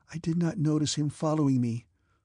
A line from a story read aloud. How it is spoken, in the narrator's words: she said timidly